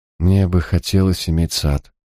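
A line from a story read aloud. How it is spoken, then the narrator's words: Dull flat voice. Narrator (Russian): тусклым голосом ответила Тамазин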